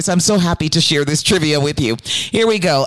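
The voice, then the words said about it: Excited, enthusiastic delivery. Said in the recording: “hear the excitement in my voice”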